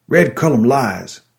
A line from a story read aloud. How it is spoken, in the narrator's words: he bellowed